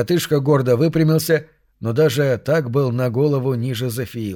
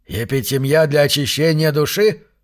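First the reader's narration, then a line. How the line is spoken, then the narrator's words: Skeptical snort. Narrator (Russian): хмыкнул Зафиил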